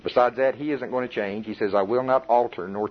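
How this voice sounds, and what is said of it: Oklahoma accent. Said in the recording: “my Oklahoma accent says worship”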